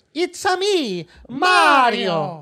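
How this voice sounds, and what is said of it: Mario's exaggerated Italian accent. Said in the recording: “Did they do the voice? Did they do the Italian accent”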